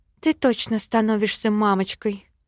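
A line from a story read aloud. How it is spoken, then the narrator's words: Sighing. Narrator (Russian): Вздохнула я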